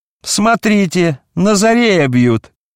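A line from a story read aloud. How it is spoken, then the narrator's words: Shouted. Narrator (Russian): кто-то крикнул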